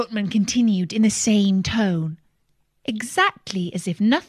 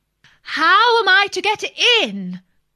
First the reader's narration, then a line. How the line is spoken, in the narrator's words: said Alice in a louder tone